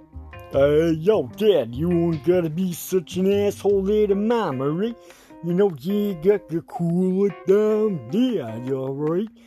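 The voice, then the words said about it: Put-on gangster thug voice. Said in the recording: “your little gangster thug, hooker, rugger, muffin, talking bullshit ... talk to us in your normal fucking voice”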